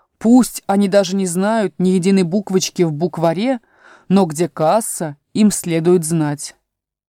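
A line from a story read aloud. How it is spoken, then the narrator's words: Loud. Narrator (Russian): Козел громко сказал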